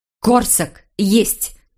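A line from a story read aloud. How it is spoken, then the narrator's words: Hissed from a window. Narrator (Russian): прошипела она из окна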